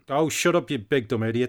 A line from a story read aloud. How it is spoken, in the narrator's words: said Hal